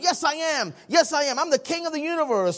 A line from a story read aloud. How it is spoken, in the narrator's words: Harry yelled back at the doctor